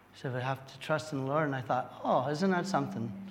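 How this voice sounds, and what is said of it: Recovering, unwell voice. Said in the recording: “My voice is a little bit on the mend ... if I make some funny sounds while I'm speaking to you”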